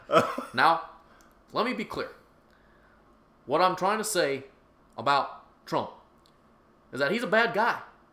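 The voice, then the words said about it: Obama impression. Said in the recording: “do an Obama impression”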